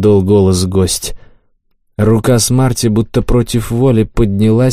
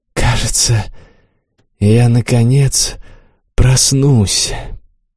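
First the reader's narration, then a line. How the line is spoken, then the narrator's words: Barely audible mutter. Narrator (Russian): Корха пробормотал еле слышно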